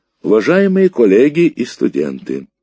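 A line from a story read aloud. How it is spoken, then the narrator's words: Loud professor. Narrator (Russian): громко начал профессор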